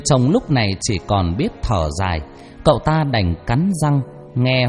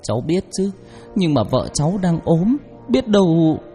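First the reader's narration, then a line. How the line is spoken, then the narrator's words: Trembling voice. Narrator (Vietnamese): Chồng Thoa nói bằng giọng run run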